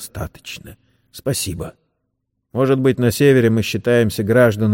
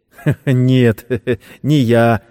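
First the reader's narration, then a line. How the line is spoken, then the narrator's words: Laughing. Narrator (Russian): засмеялся Сэм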